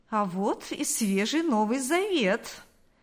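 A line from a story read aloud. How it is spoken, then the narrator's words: Snide exclamation. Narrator (Russian): воскликнул он с ехидством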